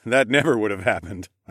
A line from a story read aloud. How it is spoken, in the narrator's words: I laughed